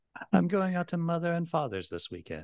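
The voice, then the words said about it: Fake transatlantic wannabe accent. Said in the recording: “That fake transatlantic fake wannabe accent.”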